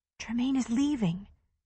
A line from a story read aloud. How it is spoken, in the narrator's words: she whispered